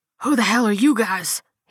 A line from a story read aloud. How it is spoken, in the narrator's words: he rasped, hands trembling as he struggled